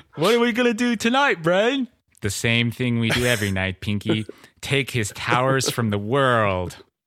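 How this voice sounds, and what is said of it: Good cartoon character voice impression. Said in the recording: “I didn't know you did a good brain. That was pretty good. ... doing his impression of ... Orson Welles”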